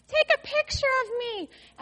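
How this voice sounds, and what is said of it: Screamed high little girl voice. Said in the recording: “little tiny girl voice screaming”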